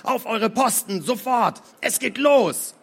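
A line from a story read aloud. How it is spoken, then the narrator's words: Roaring. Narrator (German): brüllte er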